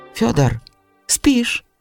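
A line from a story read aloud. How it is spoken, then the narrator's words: Old man's quiet call. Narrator (Russian): тихо окликнул его старик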